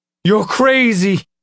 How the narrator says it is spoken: Nick shouted

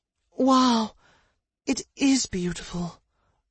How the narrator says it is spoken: Rose breathed in deeply

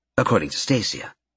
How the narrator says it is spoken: Karen paused, then quickly added

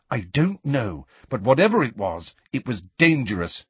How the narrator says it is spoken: she said firmly

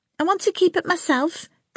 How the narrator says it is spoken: Priscilla said tightly

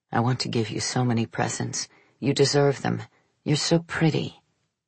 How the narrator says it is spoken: murmuring

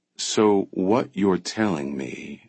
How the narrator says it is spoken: she said slowly

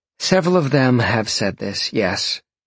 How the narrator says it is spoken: Jolene sighed

